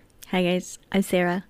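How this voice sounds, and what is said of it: Weird put-on accent. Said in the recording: “That was a weird accent.”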